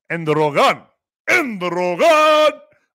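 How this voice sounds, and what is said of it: Put-on Spanish accent. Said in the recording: “I want to say it with a Spanish accent.”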